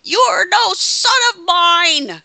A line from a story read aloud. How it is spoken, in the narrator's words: Bearer yelling at Kane